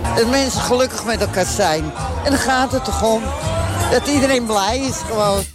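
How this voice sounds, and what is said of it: Amsterdam Dutch accent. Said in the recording (Dutch): “zo'n mooi Amsterdams accent”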